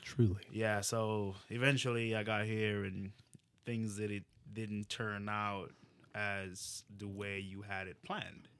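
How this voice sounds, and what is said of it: Jamaican accent. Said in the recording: “you have an accent. Where you from? I'm like Jamaica”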